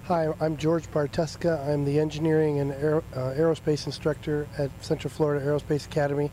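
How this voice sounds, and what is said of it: Hoarse, nearly lost voice. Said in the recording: “as you can tell, my voice is almost gone.”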